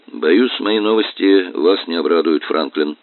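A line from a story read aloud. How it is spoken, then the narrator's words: Grim. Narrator (Russian): мрачно сказал он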